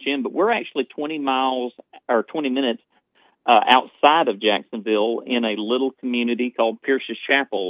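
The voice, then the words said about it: East Texas accent. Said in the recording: “I love your accent ... I just feel like I'm home with you ... that Jacksonville, East Texas area, that is home turf”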